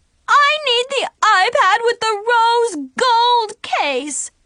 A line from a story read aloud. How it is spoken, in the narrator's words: shrieked